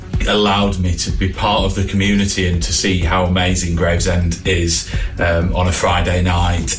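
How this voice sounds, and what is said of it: Non-local regional accent. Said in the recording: “I'm not from Gravesend, as you can probably tell from the accent”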